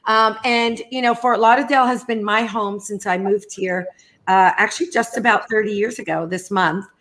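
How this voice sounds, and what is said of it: New York accent. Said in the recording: “I was born in New York, for those of you who don't detect that accent. It's pretty hard not to.”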